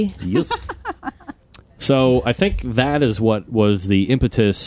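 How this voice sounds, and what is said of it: Usual voice. Nothing is said of it.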